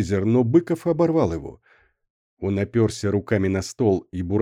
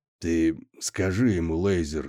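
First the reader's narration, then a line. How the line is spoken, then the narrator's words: Quiet. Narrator (Russian): заговорил он тихо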